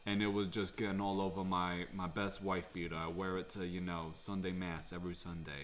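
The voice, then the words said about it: Good put-on New Jersey accent. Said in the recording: “You do a very good Jersey accent.”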